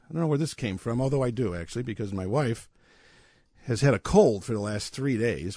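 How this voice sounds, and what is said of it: Slightly hoarse voice. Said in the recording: “this little hoarse voice”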